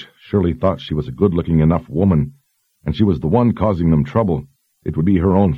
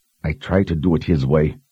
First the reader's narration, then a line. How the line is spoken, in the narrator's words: muttered to herself